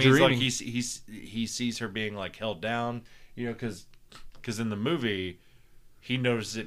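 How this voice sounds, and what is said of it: Usual voice. Nothing is said of it.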